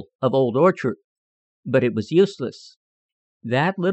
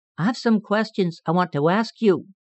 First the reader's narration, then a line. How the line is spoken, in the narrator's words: said Peter timidly, but very politely